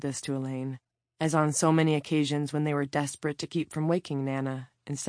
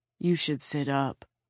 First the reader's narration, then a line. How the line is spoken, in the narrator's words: he said gently